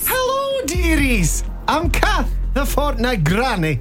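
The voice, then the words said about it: Deliberately bad put-on Scottish accent. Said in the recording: “Terrible Scottish accent.”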